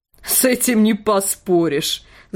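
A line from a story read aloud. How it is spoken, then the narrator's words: Dog laughing. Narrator (Russian): засмеялся пес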